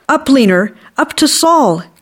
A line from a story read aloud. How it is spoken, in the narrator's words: Katie shouted